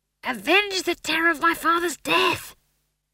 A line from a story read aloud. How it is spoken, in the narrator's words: he hissed